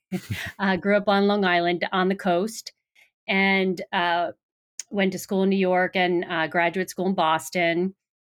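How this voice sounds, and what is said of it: New York accent. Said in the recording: “originally from New York, if you couldn't tell by my accent”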